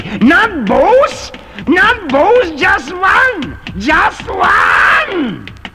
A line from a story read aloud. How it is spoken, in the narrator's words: shouting wildly